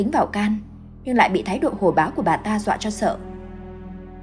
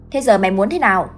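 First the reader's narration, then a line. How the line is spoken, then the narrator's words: Loud bullying yell. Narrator (Vietnamese): Người đàn ông gân cổ lên nạt nộ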